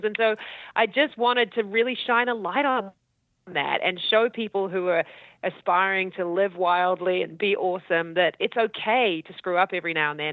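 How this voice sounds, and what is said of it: New Zealand accent. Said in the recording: “accent, kick-ass Kiwi accent... So you're from New Zealand.”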